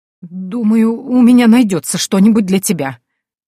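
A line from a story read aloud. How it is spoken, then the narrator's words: Trembling voice. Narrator (Russian): дрожащим голосом произнесла женщина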